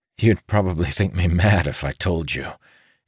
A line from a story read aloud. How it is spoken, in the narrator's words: added with a weak chuckle